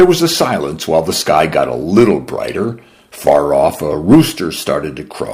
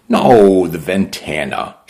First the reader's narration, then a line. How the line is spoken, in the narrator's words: she replied